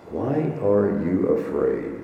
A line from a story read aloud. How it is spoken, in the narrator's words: said Jesus